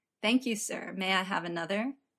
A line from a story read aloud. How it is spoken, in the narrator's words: Gus says, just like the guy in the movie, as seriously as he can, before he starts laughing, too